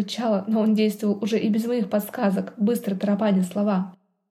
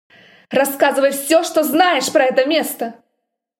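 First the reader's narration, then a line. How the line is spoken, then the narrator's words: Accusing bark. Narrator (Russian): Рявкнул так, словно я была в чем-то виновата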